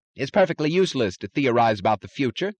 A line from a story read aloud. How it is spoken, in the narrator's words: snapped Taggart